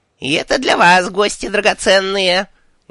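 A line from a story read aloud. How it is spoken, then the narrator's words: Shrill insistent old voice. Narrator (Russian): У старухи были визгливый напористый голос пожилой цыганки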